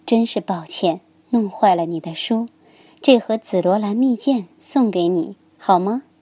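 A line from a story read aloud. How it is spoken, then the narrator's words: Gentle. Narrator (Chinese): 皇后温柔地说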